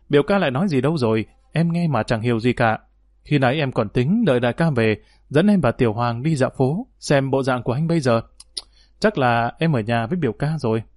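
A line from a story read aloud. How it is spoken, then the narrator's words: Gentle amused laughing voice. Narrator (Vietnamese): Đường Nhất Tiên bị y chọc đến bật cười, nàng dịu dàng mỉm cười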